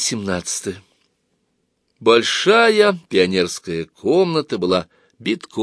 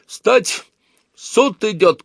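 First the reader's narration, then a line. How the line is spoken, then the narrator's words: Shout. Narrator (Russian): крикнул кто-то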